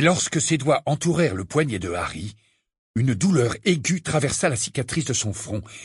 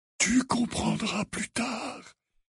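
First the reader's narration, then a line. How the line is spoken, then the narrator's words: Murmuring. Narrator (French): murmura Dumbledore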